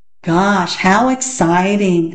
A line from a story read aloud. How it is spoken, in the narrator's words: said Peter in a very unexcited voice